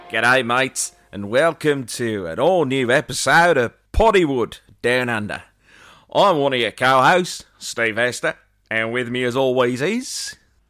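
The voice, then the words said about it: Put-on Australian accent. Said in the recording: “why in the hell have you gone for an Australian accent?”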